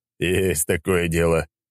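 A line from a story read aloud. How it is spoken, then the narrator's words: Wry grunt. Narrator (Russian): хмыкнул глава тайной канцелярии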